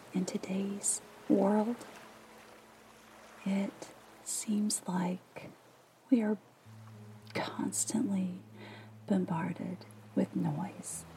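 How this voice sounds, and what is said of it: Soft, gentle reading voice. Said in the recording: “As you can tell, I read in a soft voice”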